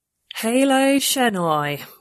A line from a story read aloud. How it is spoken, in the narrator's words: she said flatly